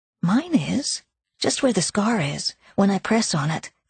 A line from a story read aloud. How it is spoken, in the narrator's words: Claire explained